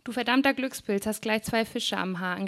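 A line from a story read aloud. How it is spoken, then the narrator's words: Called out. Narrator (German): rief Alain an der Leine neben ihm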